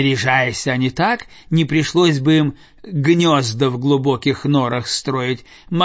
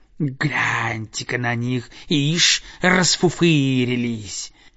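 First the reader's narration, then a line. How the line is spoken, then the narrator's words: Hissing. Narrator (Russian): другие птицы шипели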